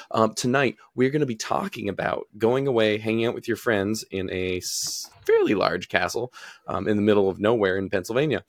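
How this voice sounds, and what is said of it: Raspy, strained voice. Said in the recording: “I've got a raspy voice from losing it all”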